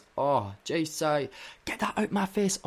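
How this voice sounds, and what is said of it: Put-on Australian accent. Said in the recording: “Why am I doing an Australian? ... I just tried to do an Australian accent.”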